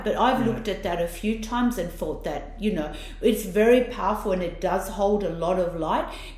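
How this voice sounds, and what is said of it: Italian accent. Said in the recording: “my Italian accent's so bad”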